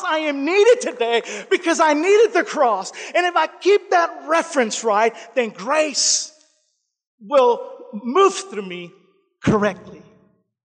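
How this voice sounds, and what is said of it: Spanish accent. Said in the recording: “Is that just my Spanish or what? My accent?”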